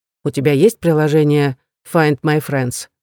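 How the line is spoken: Plain. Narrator (Russian): спросил у Эрика

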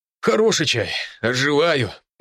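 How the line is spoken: Moaning. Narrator (Russian): простонал мужчина

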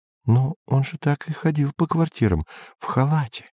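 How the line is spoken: Whisper. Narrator (Russian): шептала Сельма

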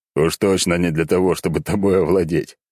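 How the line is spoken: Smirking. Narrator (Russian): хмыкнув в ответ

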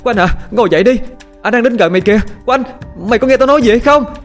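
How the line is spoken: Shouting. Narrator (Vietnamese): Tiếng la hét của Dung

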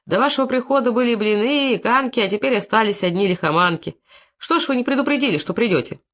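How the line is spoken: Angry scolding. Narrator (Russian): Настя набросилась на Фомича

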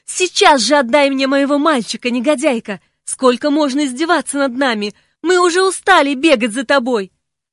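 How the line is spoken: Furious scream. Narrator (Russian): Не помня себя от ярости закричала

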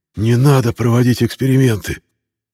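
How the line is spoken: Frightened wheeze. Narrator (Russian): просипел от страха Юлиан

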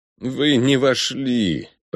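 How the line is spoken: Moaning. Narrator (Russian): простонал Ориго

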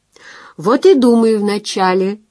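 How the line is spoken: Laughing. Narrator (Russian): рассмеялась она

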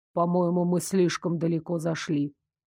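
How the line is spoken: Reluctant grumble. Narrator (Russian): пробурчал он с неохотой

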